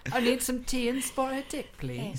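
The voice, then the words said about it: Bad put-on British accent. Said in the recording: “really bad British accents. There's some Liverpool in there.”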